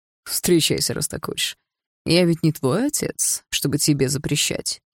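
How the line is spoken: Sarcastic remark. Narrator (Russian): язвительно добавил Андрей

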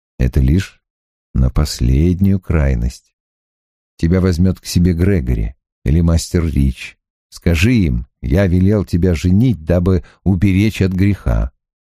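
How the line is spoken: Soft. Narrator (Russian): Добавляет мягко

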